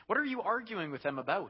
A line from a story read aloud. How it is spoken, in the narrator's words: he asked